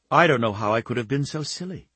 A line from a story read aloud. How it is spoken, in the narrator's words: she murmured aloud